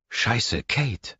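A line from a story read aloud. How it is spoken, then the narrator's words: Croaking. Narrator (German): krächzt sie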